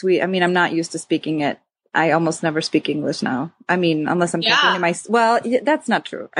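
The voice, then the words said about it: Slight Swedish twang in English. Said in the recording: “a little bit of like almost a Swedish like twang to like some of your words”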